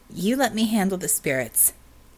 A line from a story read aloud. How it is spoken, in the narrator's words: she said sharply